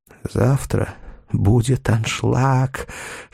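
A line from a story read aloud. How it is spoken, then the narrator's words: Discreet whisper. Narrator (Russian): шепнул Чарли, стараясь, чтобы его не услышали в зале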